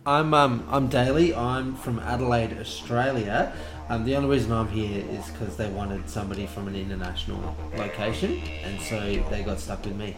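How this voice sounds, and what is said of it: Australian accent. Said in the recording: “We just really like hearing the accent.”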